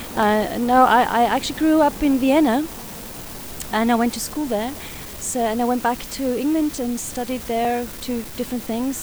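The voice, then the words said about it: Mixed British-Austrian accent. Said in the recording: “that's where the accent comes from ... It's not Mancunian, not at all, actually. It's a kind of a mixture of something.”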